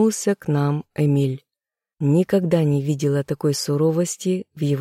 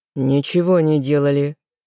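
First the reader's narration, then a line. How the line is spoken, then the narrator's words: Growled reply. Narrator (Russian): рыкнул в ответ внук бабушки Эммы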